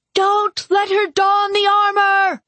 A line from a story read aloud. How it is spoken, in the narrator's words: Carolina screamed